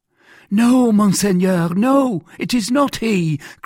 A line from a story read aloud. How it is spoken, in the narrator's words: cried Bonacieux